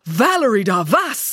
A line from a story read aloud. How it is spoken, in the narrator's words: exclaimed